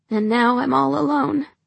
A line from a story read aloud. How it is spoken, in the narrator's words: say miserably